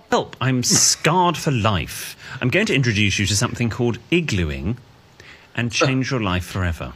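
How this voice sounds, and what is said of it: Soothing British accent. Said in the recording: “I like the British accent, really is soothing”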